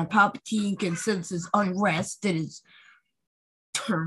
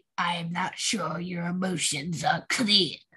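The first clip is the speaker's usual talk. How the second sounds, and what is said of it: Imitation of Palpatine's voice. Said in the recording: “I just can't do the Palpatine voice that well.”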